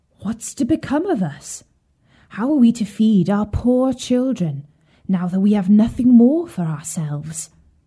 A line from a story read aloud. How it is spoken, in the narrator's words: full of cares and worry, he sighed and said to his wife